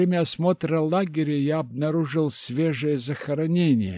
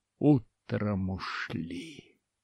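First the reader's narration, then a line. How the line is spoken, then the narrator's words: Muttered. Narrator (Russian): пробормотав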